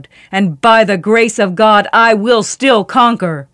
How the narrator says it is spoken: he bellowed

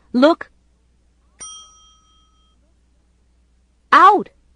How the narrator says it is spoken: shouted

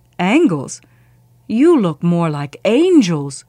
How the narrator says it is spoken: Pope exclaimed

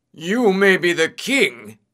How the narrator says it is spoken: shouted

